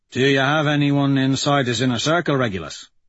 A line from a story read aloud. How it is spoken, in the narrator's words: Dancer asks Quicksilver